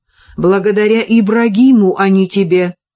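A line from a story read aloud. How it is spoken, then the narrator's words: Sultan exclaiming. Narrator (Russian): воскликнул султан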